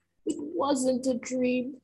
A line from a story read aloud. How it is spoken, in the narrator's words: I gasped, frightened as the realization hit me as hard as bricks